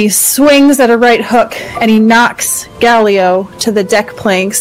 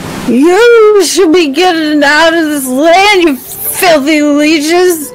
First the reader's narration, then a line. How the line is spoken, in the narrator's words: shouts out